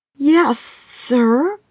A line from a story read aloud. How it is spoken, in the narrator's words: Roma stammered, looking guilty